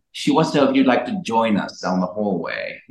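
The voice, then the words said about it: Put-on British accent. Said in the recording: “He was like British. ... God, I hope he's British. If not, that's an odd accent.”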